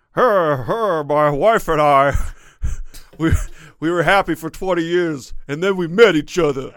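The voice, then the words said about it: Imitates a comedian's voice. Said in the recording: “It's not the greatest impression, but man, it got Dangerfield-esque there ... It's pretty. It's her. Pretty good.”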